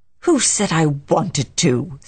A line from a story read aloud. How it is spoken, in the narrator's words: said Carrie fiercely